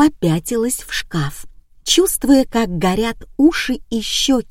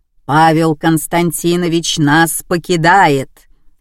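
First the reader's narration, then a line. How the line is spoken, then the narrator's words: Stony flat declaration. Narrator (Russian): каменным тоном заявила Эля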